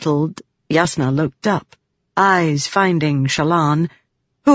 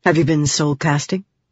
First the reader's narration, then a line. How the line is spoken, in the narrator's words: Yasna asked sharply